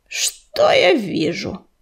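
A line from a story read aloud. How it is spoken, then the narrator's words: Growling. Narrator (Russian): прорычал Коршун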